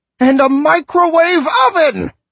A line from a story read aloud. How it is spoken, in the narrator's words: I screamed at him